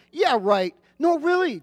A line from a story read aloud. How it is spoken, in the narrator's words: the janitor said